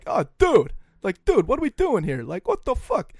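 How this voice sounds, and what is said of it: Imitates another person's voice, poorly. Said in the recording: “It's just a terrible impression.”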